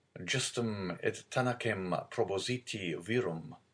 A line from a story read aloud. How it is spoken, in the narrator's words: Louis XVIII muttered